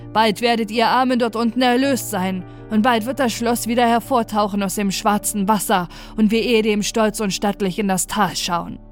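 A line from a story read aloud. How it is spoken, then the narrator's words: Loud call. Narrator (German): rief er laut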